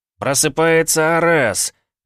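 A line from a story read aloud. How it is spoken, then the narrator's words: Barked. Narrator (Russian): рявкнул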